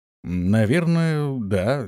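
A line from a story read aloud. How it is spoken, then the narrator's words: Uncertain. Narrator (Russian): неуверенно проговорил Антон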